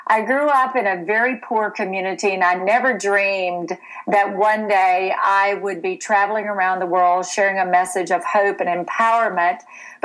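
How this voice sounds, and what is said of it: Full Southern US accent. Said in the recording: “this accent that you're hearing today is a full Southern accent.”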